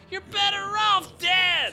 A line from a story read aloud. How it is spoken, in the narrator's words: Passion screams